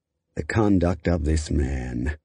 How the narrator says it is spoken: Cochran then exhaled and muttered with disgust

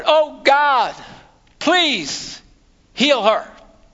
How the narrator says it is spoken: Moses cried out to the Lord

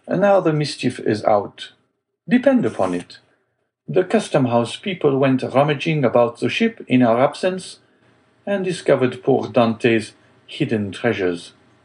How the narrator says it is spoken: exclaimed Danglars

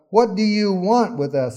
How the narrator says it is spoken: a man in their synagogue who was possessed by an evil spirit cried out

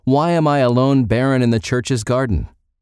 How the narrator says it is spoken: another saintly soul cried out

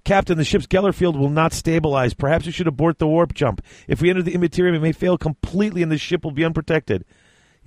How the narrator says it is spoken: From the forward consoles, Vought called out

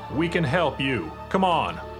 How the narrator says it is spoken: The man, a tall, thin African-American, called out

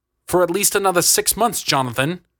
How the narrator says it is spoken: Augustus spat

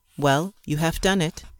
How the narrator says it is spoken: stammered

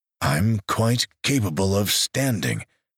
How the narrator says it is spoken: he said stiffly

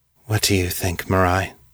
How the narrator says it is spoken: She asked, wearily

